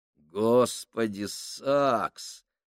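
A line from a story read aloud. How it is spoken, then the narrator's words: Groaning. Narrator (Russian): простонал Фабрини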